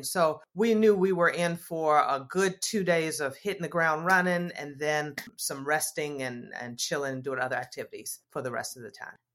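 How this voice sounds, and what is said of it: Southern American accent. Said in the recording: “a fellow Southern accent”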